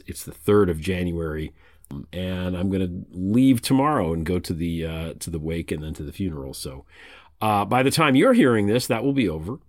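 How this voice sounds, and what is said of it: Sick, congested-sounding voice. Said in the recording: “You can tell from my voice, I'm still a little bit COVID-y. I'm a little bit foggy”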